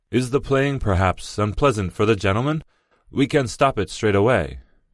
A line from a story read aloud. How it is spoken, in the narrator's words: Gregor's father called out